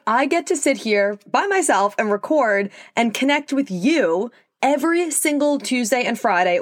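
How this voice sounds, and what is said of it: New York Long Island accent. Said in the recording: “if you couldn't tell by my accent, I'm from New York, specifically Long Island”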